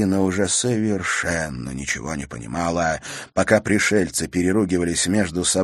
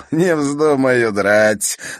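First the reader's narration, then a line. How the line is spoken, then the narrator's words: Mocking. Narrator (Russian): насмешливо сказал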